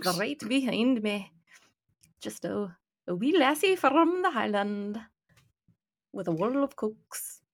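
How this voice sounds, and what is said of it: Put-on Scottish brogue. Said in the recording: “Scottish brogue.”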